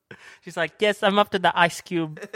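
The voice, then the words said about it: Accented little kid voice. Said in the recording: “Why does she have an accent? ... Why is she Filipino? ... I was trying to be a little kid.”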